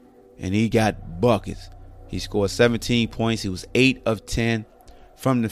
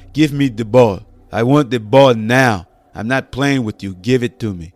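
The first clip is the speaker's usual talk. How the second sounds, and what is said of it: Imitates another person's deep accent. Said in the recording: “Momney got that deep accent?”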